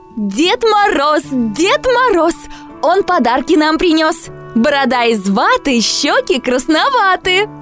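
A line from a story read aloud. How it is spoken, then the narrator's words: Mother shouting. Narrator (Russian): мама закричала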